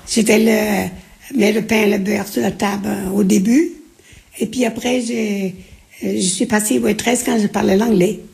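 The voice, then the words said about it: Slight Breton French accent. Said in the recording (French): “Vous avez encore un peu d'accent? ... j'ai l'accent breton”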